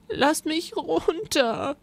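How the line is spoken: Sobbing. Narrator (German): schluchzte Rosa

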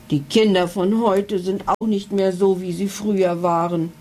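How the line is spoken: Unintelligible growl. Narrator (German): knurrte er unverständlich

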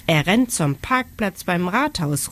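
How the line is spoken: Calling out. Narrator (German): ruft Sarah

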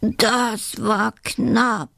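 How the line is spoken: Cheeky badger groaning. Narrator (German): stöhnt der freche Dachs

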